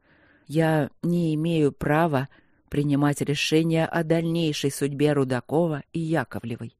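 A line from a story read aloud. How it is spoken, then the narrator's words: Slow. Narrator (Russian): медленно проговорил Игорь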